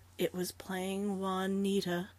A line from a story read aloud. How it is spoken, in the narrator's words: Flora answered wearily